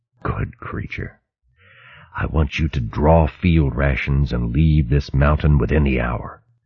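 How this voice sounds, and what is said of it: Whispered, lowered voice. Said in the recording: “lowered its voice to a whisper.”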